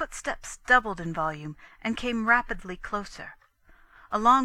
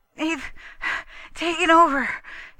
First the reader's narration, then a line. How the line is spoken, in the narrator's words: he panted, another gobbling breath